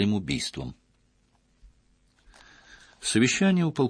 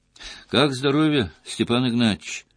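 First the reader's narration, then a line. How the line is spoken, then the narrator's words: Cheerful question. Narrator (Russian): бодро спросил он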